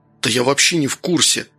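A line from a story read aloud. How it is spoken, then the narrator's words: Whispered reply, grandson. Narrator (Russian): так же шепотом ответил внук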